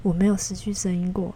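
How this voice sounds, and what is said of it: Very quiet, soft voice. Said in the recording (Chinese): “那个妈妈就在旁边小小声的说”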